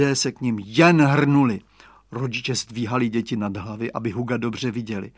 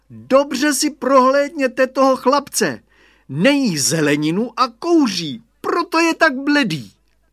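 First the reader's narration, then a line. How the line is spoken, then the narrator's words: Exclaimed. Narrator (Czech): zvolal Radovan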